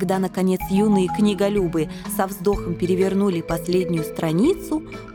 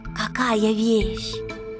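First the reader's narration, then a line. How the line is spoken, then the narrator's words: Excited. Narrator (Russian): взволнованно сказал Лемах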